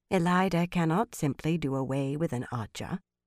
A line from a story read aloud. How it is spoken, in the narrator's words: Morvryn murmured